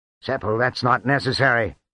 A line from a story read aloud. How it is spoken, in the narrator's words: Onyx said harshly